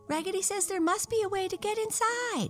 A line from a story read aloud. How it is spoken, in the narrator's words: cried all of the dolls